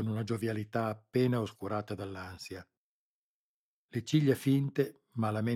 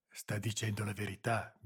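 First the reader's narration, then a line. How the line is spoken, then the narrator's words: Whispered. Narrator (Italian): bisbigliò Boselli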